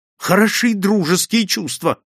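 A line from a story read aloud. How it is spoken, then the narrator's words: Bitter exclamation. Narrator (Russian): с горечью воскликнул я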